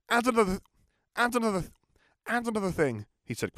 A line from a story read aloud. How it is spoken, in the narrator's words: he said quickly before his parents could interrupt